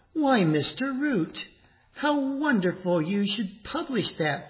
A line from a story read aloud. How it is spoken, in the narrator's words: Fanny exclaimed